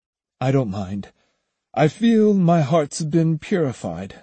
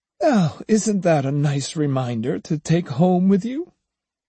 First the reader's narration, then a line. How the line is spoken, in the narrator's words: The woman laughed again, saying